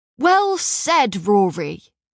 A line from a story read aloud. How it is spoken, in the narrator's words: shouted one